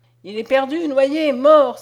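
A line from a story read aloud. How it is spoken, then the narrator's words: Pursuers crying out together. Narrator (French): s'écrièrent enfin ceux qui poursuivaient le bandit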